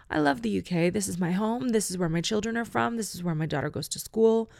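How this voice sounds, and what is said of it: Non-British accent. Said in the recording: “it's confusing for people because I have this accent”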